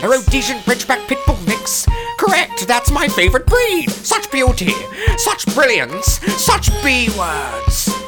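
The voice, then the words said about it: Character voice with a put-on accent. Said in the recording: “I like your accent.”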